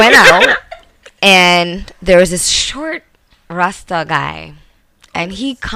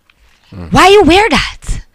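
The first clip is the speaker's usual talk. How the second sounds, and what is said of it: Imitates a Rasta man's accent. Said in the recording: “this is his exact tone and his accent.”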